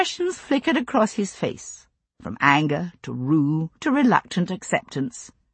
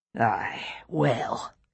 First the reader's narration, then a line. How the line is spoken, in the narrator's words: he said dryly